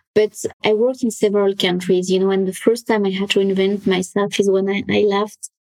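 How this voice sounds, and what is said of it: French accent. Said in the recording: “I'm French. I'm sure you can tell by my accent. Try to hide it, but doesn't work.”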